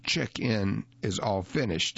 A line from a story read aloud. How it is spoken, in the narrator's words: he said